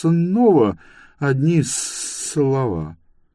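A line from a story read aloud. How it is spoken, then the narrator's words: Disappointed drawl. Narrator (Russian): разочарованно протянул Мун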